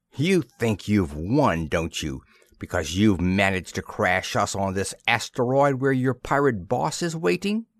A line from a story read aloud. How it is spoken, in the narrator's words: said savagely to Kinniston